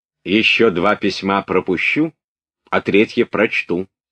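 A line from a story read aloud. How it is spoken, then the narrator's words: Stern, prince. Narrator (Russian): строго сказал князь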